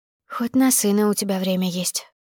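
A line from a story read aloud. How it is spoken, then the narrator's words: Whispering. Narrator (Russian): прошептала, не думая, что муж услышит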